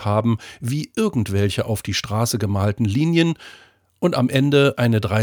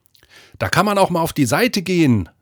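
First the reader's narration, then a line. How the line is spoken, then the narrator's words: Called back over shoulder. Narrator (German): rief über die Schulter zurück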